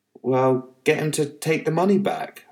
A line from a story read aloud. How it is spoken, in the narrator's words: I snapped